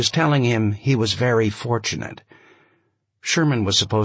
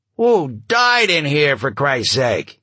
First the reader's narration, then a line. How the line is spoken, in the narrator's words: Somebody yelled out